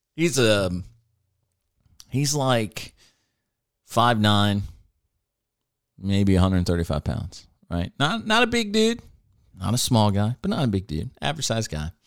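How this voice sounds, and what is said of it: Choked-up, emotional voice. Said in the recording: “I'm getting choked up thinking about it.”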